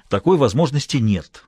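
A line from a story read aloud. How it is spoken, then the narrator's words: Almost angry interruption. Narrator (Russian): почти сердито перебил Бассет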